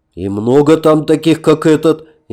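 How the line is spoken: Frightened question. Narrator (Russian): испуганно спросил Снегирь

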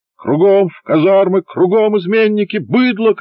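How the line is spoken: Shouted. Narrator (Russian): кричал Хвощинский

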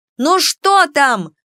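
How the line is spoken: Very loud shout. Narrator (Russian): опять закричала на всю Академию Кико

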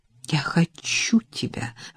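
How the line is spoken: Breathy exhale. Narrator (Russian): выдохнул

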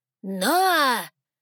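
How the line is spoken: Booming echoing bark. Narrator (Russian): рявкнул старейшина ледяных, усиленный звук его голоса эхом разнесся по залу

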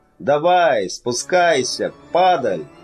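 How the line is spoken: Loud shout. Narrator (Russian): крикнул он громко

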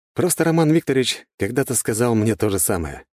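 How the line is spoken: Snorting. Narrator (Russian): хмыкнул я

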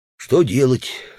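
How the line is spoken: Hypocritical sigh. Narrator (Russian): лицемерно вздохнул Удалов

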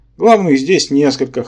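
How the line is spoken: Snorting. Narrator (Russian): хмыкнул Рабан

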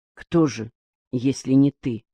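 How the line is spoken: Quiet question. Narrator (Russian): тихо спросил Аким

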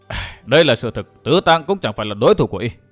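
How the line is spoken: Soft sigh. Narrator (Vietnamese): Vân Thiên Nhạc khẽ thở dài

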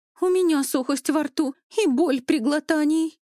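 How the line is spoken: Frightened exclamation. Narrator (Russian): испуганно воскликнула давешняя скандалистка

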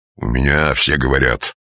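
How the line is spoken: Menacing tone. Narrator (Russian): грозно сдвинул брови

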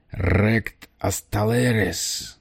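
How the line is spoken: Guttural gurgling croak. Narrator (Russian): прокаркал он гортанным клокочущим голосом

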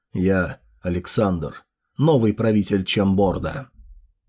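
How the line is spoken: Quiet, after a pause. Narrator (Russian): Помедлил немного и тихо сказал

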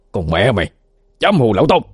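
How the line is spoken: Angry shout. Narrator (Vietnamese): Tư lĩnh quát lên

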